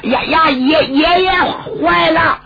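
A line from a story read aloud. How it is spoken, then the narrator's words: Shouting. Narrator (Chinese): 程千宗还喊呢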